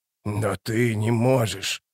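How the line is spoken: Hissed. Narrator (Russian): прошипела она

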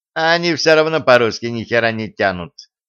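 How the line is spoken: Plain. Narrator (Russian): говорит Костя

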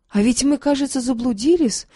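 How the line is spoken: Exclaimed. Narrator (Russian): воскликнул он

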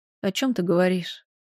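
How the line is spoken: Mumbled. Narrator (Russian): пробормотала я

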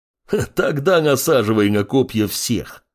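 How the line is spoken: Laughing bear. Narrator (Russian): Рассмеялся медведь

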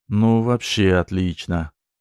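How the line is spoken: Drawling. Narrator (Russian): Протянул Серега

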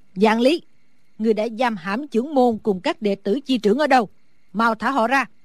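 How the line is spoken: Old woman shouting. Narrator (Vietnamese): Sử bà bà lớn tiếng hét

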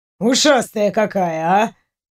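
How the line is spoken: Grumbling. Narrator (Russian): проворчал Дементьев

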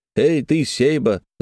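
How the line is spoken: Shout then laughter. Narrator (Russian): закричал Терехов и засмеялся

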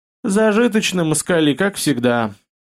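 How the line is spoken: Envious sigh. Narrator (Russian): завистливо вздохнула Нинила

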